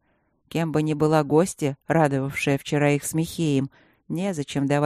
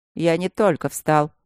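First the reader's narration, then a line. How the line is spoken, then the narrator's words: Irritated, through teeth. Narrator (Russian): раздраженно процедил Трот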